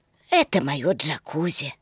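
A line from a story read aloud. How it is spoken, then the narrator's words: Old man whispering. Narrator (Russian): сказал старик шепотом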